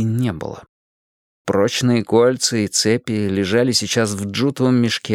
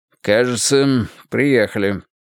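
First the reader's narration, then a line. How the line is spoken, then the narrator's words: Dry remark. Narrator (Russian): сухо заметил Грейтхаус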